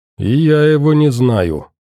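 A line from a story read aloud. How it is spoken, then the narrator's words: Gloomy. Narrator (Russian): мрачно добавил Саша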